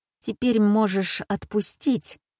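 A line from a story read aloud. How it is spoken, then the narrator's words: Through gritted teeth. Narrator (Russian): цежу я сквозь зубы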